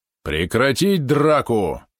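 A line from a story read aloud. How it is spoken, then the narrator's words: Roaring voice again. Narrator (Russian): снова взревел голос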